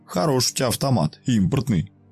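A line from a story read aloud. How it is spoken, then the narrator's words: Short chuckle. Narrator (Russian): хохотнул Игорек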